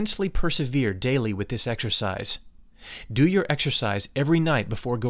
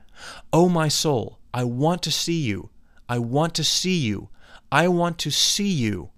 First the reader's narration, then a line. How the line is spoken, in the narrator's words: exclaim, saying